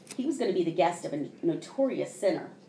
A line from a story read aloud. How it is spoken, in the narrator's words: they grumbled